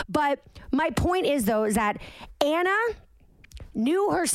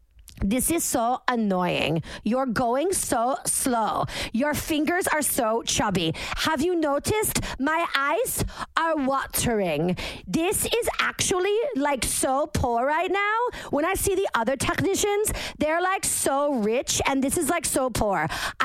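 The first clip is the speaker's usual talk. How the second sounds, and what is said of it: Deliberately bad put-on accent. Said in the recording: “I'm doing the worst accent.”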